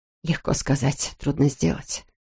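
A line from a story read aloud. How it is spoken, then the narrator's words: Muttering. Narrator (Russian): пробормотала Тоби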